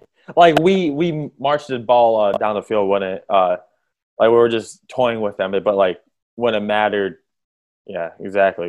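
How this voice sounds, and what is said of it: Hoarse, worn-out voice. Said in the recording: “my voice is kind of gone ... I was yelling at the TV”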